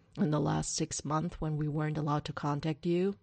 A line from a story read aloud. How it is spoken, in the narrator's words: Derek grumbles